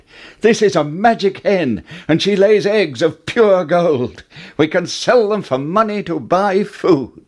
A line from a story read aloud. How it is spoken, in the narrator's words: Jack cried